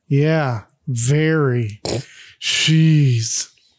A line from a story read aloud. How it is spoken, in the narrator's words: Peter sarcastically says